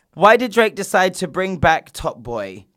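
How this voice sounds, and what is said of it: Put-on American accent. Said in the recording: “why am I even doing an American accent?”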